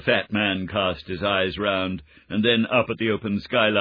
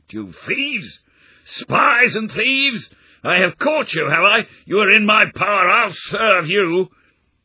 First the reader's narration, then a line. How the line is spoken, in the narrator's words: he shrieked